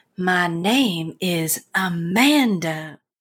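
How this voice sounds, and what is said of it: Soft southern accent. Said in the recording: “soft southern accent”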